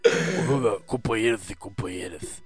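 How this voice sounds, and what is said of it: Imitates another person's voice. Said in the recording (Portuguese): “eu imitando o Lula, não vai ficar parecido ... o pior é que tá parecido, um pouco ... as minhas imitações são tão ruins que ela eu até considero boa”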